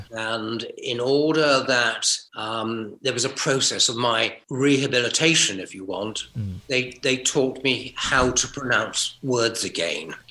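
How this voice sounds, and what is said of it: British received pronunciation accent. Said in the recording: “your accent as well is not what you would have had if you hadn't have been deaf ... you ended up picking up received pronunciation”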